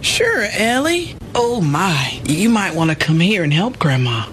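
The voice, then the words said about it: Slight southern accent. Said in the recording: “That still has a bit of a southern twinge”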